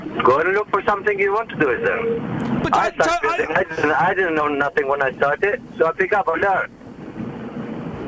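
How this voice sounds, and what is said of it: Slight Albanian accent. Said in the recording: “I'm hearing a slight accent ... Albania”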